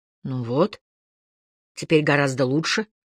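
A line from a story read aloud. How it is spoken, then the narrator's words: Muttering. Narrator (Russian): пробормотал он наконец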